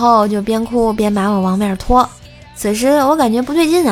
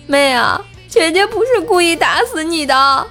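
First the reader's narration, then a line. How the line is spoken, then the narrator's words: Crying while speaking. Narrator (Chinese): 我姐边哭边说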